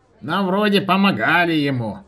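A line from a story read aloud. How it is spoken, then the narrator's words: Creaky voice. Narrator (Russian): проскрипел Рапалыч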